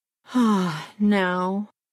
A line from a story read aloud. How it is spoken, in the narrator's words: he said with a sigh of content